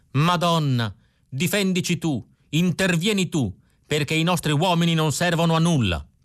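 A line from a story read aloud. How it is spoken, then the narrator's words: Old woman shouting again. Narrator (Italian): La vecchia Maria Rosa era arrivata fino alla soglia della chiesa e in ginocchio aveva ripreso a gridare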